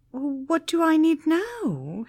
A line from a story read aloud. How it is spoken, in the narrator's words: whimpered